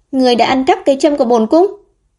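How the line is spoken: Panicked scolding shout. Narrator (Vietnamese): Quận chúa Lưu Phương tỏ ra vô cùng hoảng hốt, quát mắng

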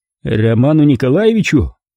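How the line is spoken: Grumbling. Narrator (Russian): проворчал Ухов

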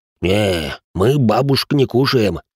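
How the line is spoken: Deep voice, cheerful. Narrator (Russian): пробасил бывший лейтенант, радостно улыбаясь собеседнице

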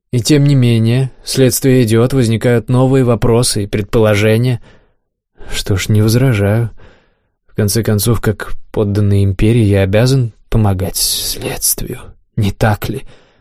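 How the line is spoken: Sighing. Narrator (Russian): вздохнул я

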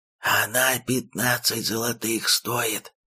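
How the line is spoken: Stifled whispered wail. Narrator (Russian): Шептом пробился наружу придушенный вопль души торгаша

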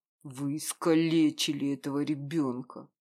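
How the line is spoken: Through gritted teeth. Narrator (Russian): Процедил в ответ

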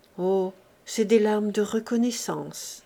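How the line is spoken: Plain. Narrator (French): répondit-il

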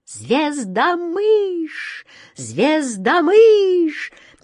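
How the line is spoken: Frantic distorted scream. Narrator (Russian): не своим голосом закричала ласточка

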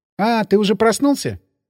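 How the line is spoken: Cheerful female voice. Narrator (Russian): весело сказала она

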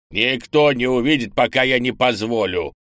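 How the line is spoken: Haughty old man's snort. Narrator (Russian): высокомерно хмыкнул старый лун

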